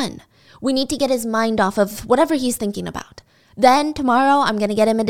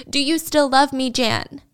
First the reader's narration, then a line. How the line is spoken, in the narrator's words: Through the sobs, he would say